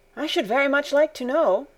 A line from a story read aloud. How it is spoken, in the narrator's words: continued Barbel, in an inquiring tone of voice